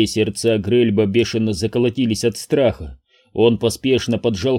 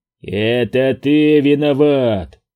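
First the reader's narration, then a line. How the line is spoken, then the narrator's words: Roaring. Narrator (Russian): взревел Джемба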